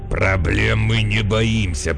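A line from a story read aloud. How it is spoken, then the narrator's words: Growling. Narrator (Russian): прорычал подносчик фруктов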